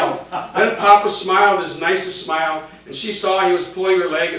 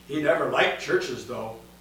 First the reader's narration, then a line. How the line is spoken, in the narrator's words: Real quietly, he said